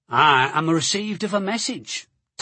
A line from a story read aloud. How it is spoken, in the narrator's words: Tosti said